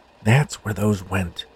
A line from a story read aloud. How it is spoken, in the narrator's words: he whispered to himself